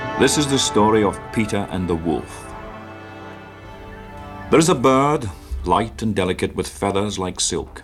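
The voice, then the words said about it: English with a Scottish accent. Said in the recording (French): “dans un anglais incroyable ... avec un accent écossais ... l'accent écossais de... c'est James Bond, le premier”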